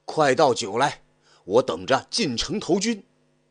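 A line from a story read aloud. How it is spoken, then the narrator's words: Burly man shouting. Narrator (Chinese): 一个大汉推着车在店门口歇下，一进店就喊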